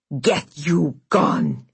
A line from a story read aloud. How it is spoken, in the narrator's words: he snarled